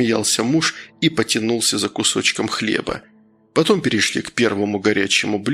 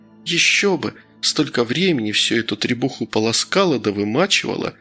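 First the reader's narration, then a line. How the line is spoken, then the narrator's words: Sighing. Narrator (Russian): Вздохнула Гедиминова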